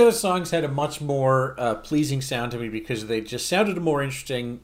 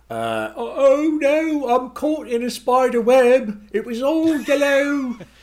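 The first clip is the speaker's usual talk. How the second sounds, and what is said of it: Bad put-on accent. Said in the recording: “that is a bad accent”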